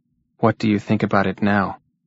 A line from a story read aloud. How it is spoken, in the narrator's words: asked Jean in a tired, flat voice